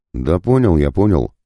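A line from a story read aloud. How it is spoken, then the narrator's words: Barking demon. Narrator (Russian): рявкнул демон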